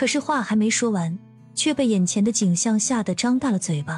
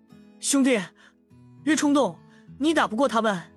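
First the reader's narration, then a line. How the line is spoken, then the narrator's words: Tense shout. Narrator (Chinese): 他的哥哥也是紧张的喊道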